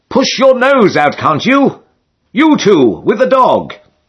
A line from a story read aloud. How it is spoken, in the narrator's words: another voice cried